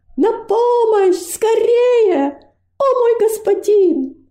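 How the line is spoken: Shouting with all strength. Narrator (Russian): Робость изо всех сил закричала

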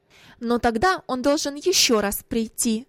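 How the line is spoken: Sharp reply. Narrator (Russian): ответила резко мать

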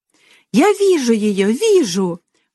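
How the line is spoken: Excited child shouting. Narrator (Russian): восторженно закричал мальчик

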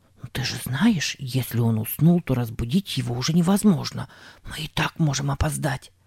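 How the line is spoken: Rapid whisper. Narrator (Russian): скороговоркой прошептал Сэм

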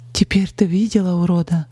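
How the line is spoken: Shaky question. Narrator (Russian): дрогнувшим голосом спросила Полина

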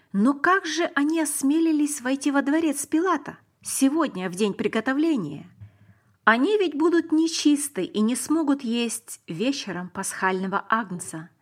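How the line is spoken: Plain. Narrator (Russian): сказала мама

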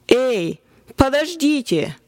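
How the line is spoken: Triumphant exclamation. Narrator (Russian): торжествующе воскликнул я

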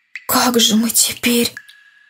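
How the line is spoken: Whispered. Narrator (Russian): Шепотом сказал Андрей

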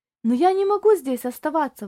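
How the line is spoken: Exclaiming. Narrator (Russian): воскликнул Тони

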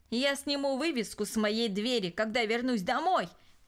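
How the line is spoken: Shouted while leaving. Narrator (Russian): крикнул он, отъезжая

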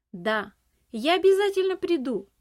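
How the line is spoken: Shouted while running. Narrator (Russian): Уже на бегу крикнул он

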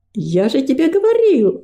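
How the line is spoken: Exclamation. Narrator (Russian): воскликнул Гордость

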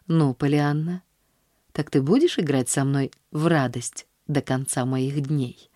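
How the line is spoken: Asked tenderly. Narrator (Russian): спросил он ласково

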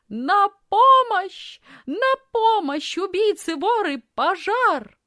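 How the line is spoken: Loud screaming. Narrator (Russian): испустила громкий крик, громко закричала

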